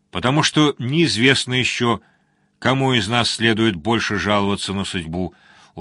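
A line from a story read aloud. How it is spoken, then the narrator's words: Sad chuckle. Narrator (Russian): усмехнулся Борн как-то грустно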